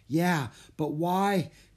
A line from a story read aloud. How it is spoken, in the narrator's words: Jack gasped